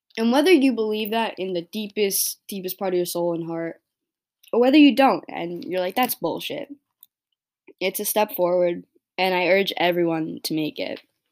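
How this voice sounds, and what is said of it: Strained, hoarse voice going out. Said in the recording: “Oh my god, I'm like losing my voice.”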